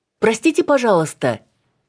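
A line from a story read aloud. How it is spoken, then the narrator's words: Shouted after someone. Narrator (Russian): крикнула ему в спину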